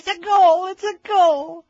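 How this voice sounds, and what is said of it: Squeaky high-pitched imitated voice. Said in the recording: “his squeaky voice.”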